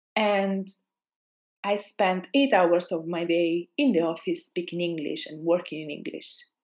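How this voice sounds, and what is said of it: Italian accent. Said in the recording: “I'm Italian, as you know, or might assume by my accent.”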